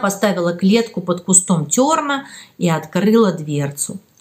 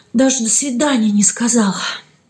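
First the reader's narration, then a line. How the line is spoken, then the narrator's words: Light sigh. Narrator (Russian): легонько вздохнула Стеша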